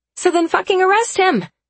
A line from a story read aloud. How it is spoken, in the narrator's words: I shout